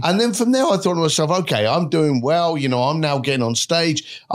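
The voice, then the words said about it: English accent. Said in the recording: “you have an English accent”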